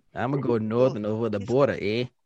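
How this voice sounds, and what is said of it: Unconvincing put-on Canadian accent. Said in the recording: “I'm going to need you to work on your Canadian accent ... I'm gonna need you to work on that one though.”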